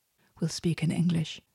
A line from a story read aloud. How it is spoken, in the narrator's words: Kit whispered to Leah